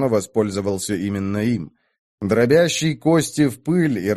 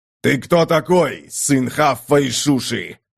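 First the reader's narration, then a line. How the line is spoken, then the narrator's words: Barking. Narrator (Russian): рявкнул сын Сахога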